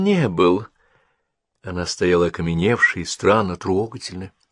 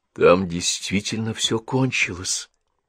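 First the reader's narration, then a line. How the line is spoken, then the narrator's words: Quiet. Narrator (Russian): тихо сказала Генриетта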